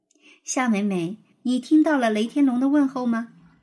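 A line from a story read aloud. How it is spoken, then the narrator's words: Smiling, cheerful question. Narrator (Chinese): 花儿老师笑眯眯的又问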